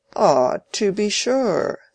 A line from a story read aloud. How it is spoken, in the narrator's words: said Raffles, with a mocking cordiality